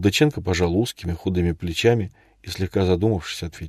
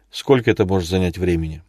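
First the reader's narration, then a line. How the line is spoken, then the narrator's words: Irritated question. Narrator (Russian): раздраженно спросил Илья Борисович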